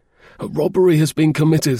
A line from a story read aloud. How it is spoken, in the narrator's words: gasped